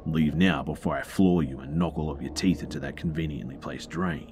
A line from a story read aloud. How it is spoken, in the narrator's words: The security guard says in his most aggressive tone that he could muster